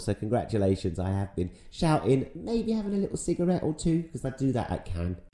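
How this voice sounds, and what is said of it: Hoarse voice. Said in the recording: “My distinctive voice is a little hoarse, because I'm recording this the morning after England beat Denmark to get to the final.”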